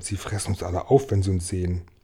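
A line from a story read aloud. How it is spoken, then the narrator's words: Whispered. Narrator (German): flüsterte Regenwurm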